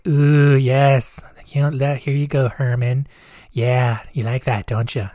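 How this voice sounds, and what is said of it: Silly character voice for a skeleton. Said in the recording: “gave him a little voice”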